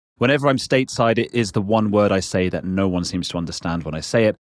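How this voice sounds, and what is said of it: British English accent. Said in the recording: “when I say water, that's just my accent. ... we Brits”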